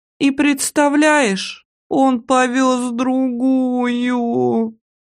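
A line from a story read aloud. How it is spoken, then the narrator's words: Wailed. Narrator (Russian): Взвыла Олька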